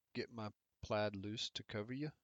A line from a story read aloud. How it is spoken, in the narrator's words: he replied